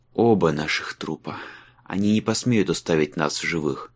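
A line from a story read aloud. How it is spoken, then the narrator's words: Muttered reply. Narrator (Russian): пробормотал Майлз в ответ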